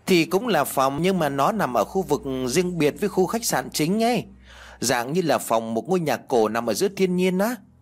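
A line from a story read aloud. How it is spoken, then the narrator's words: Sighing. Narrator (Vietnamese): Tiên liền thở dài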